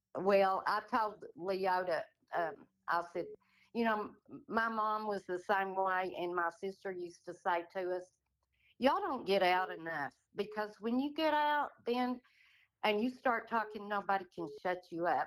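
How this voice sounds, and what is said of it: Texas accent. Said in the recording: “this wonderful Texas accent ... It's beautiful.”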